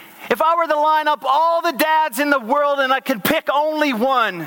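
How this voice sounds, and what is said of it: Usual voice. Nothing is said of it.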